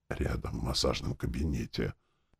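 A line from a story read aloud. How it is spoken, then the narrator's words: Whispered reply. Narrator (Russian): шепотом отвечал доктор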